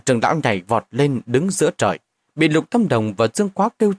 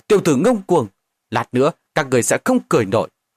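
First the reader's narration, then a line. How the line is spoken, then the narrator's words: Angry shout. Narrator (Vietnamese): Giản Trưởng Lão tức giận quát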